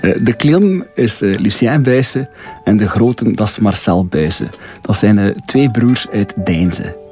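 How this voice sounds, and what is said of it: Light Flemish regional accent. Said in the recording (Dutch): “een licht accent”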